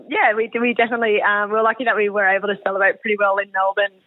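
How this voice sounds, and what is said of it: Hoarse, partly lost voice. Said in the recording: “as you can probably tell by my voice, the celebrations were pretty good ... not with sore throats, but with you know, lost their voice a little bit”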